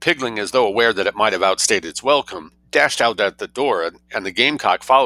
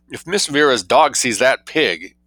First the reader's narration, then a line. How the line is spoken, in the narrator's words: exclaimed the maid